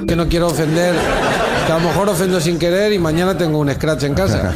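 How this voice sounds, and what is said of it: Basque accent speaking Spanish. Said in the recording (French): “Basque ... C'est Berto Romero qui effectivement est un humoriste basque.”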